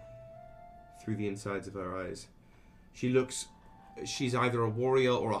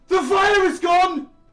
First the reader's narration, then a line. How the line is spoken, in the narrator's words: She screams in Elven